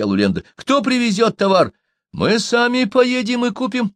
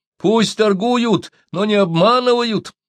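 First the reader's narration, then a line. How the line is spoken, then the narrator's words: Shouted by several. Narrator (Russian): закричали Гольды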